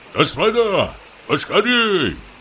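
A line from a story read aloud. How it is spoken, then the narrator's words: Shouted. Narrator (Russian): крикнул им Самойленко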